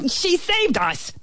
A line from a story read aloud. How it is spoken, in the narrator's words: the ant bellowed